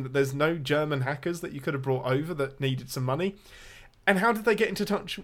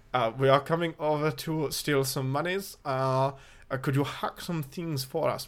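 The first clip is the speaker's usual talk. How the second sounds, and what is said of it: Put-on German accent. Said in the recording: “I closed my eyes and I heard Alan Rickman there. ... my German accent is 100% better than most of the Germans in this movie.”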